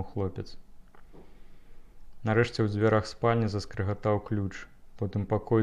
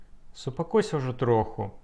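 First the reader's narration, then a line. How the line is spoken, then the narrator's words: Irritated young woman. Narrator (Belarusian): раздражнёна сказала маладая габрэйка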